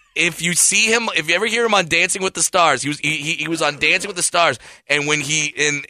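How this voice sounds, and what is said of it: Usual voice. Nothing is said of it.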